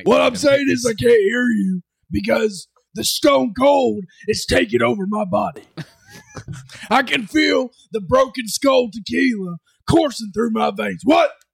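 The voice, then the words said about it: Convincing gravelly Texan impression. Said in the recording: “almost the exact tone and the accent. It is, you have the cadence... Down... that's a pretty damn good impression”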